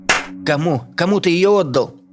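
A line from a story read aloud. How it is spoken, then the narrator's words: Man sobbing, forcing words. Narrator (Russian): Мужчина всхлипывая, выдавил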